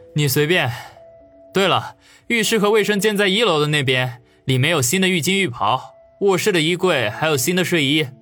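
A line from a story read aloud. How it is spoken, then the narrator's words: Embarrassed wry laugh. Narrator (Chinese): 王宇顿时暴汗，苦笑说道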